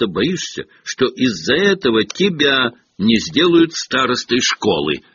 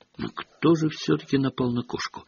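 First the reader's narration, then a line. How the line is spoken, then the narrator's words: Quiet conversational question. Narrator (Russian): негромко спросила она, как будто продолжила прерванную беседу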